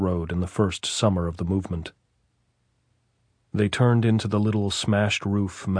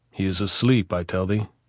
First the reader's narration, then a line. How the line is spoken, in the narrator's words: the officer said